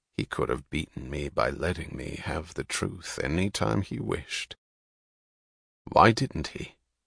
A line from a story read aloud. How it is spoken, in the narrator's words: He said quietly